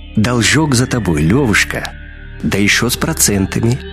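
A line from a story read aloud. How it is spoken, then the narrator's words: Gentle whistling voice. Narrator (Russian): ласково повторил свист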